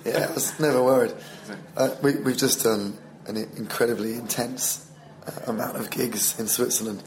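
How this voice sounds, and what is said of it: Hoarse, strained voice. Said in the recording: “I'm losing my voice a bit. I was more worried about my voice”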